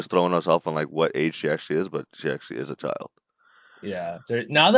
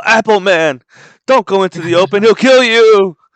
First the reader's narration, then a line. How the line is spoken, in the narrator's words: Luffy yells out